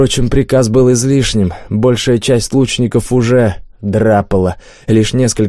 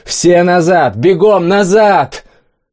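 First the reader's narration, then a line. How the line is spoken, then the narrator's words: Hasty yell. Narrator (Russian): поспешно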